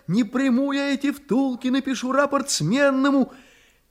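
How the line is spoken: Shouting. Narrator (Russian): она ему кричала

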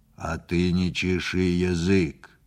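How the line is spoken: Stern. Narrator (Russian): строго сказал черный

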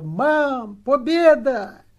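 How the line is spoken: Boy yelling at full voice. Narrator (Russian): какой-то мальчишка, и что было моченьки, заорал

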